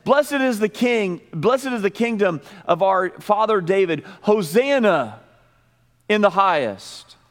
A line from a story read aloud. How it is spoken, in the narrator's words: the group in the very back, they would start yelling